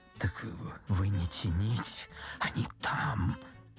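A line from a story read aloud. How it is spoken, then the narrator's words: Whisper. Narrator (Russian): Ипполит Матвеевич шепнул Бендеру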